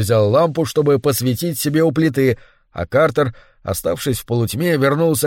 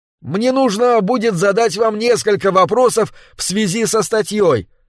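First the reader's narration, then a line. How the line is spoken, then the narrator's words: Too quiet. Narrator (Russian): сказал он, однако, по-видимому, говорил недостаточно громко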